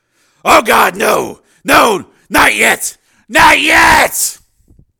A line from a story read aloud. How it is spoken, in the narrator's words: his last conscious thought was a silent scream of